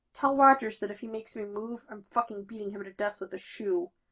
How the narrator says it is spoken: Sam mumbles, apparently conscious

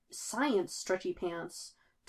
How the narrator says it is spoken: Tony mutters

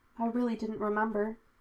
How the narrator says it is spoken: he said quietly

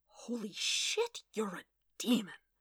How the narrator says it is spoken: Wade breathed

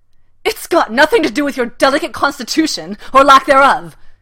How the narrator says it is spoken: shouts

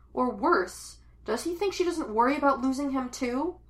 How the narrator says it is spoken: She yells, in that loose, shrieky way she does when she's afraid and angry at the same time

